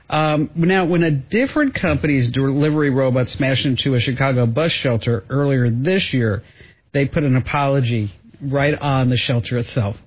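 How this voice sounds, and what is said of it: New Jersey accent. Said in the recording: “the way that I say robot ... That's my New Jersey accent coming out.”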